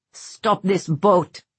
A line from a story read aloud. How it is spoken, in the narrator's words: Merrick roared